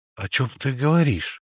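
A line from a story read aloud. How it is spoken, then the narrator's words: Frightened speech. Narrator (Russian): испуганно произнес Лютиков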